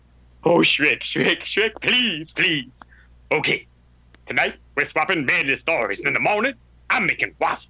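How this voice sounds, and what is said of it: American cartoon character voice impression. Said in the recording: “I'm going to do an accent. ... a great Eddie Murphy quote ... Donkey from Shrek”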